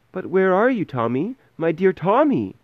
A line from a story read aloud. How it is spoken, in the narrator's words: cried his worried mother